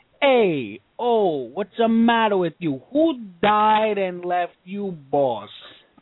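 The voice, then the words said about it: Philly Italian-American accent. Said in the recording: “He's got a Philly accent that he can whip out in a heartbeat, but it's the Italian one ... talk like a genuine Italian”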